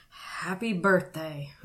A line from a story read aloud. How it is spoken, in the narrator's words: he mumbled